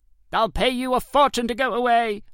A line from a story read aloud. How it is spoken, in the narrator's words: screeched